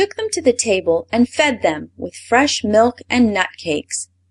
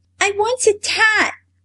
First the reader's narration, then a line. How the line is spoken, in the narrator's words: replied little Mayrie